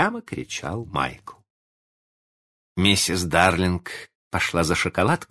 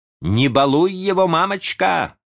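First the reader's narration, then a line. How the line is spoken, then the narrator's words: Shouting after someone. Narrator (Russian): закричал он ей вслед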